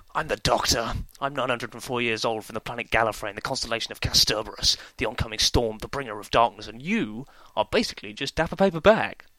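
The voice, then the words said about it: Imitates a TV character's voice. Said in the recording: “my Doctor Who impression ... That was good. That was good”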